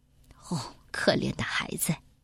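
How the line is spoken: Murmuring. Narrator (Chinese): 喃喃的说

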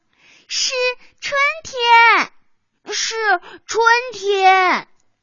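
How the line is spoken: Shouting in unison. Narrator (Chinese): 齐声的叫道

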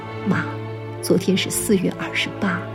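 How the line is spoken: Whispering. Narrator (Chinese): 我低声对母亲说

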